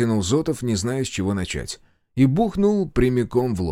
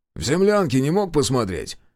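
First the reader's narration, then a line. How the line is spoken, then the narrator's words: Wry snort. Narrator (Russian): хмыкнул Решетов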